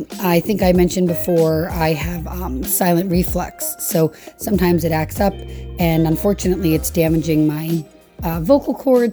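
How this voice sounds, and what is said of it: Slightly raspy voice. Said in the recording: “my voice going again. You can hear it's still a bit raspy”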